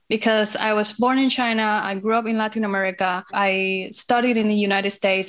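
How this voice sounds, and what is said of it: Hispanic-accented English. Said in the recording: “a Hispanic accent”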